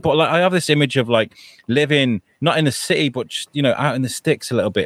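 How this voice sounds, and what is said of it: British accent. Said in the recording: “they love the British accent. And I feel like this is something I do naturally.”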